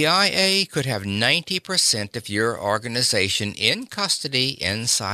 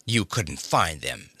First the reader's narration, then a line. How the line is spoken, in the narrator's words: snapped Polly